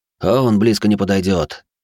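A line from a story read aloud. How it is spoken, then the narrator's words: Lifeless voice. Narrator (Russian): безжизненным голосом ответил Фурлиц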